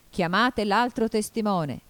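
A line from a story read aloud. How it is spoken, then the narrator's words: King shouting. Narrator (Italian): gridò il re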